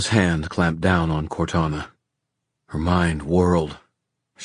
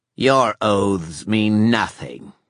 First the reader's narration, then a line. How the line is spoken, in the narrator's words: snarled Ethna